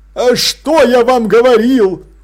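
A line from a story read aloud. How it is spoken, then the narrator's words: Triumphant exclamation. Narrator (Russian): торжествующе воскликнул Блуз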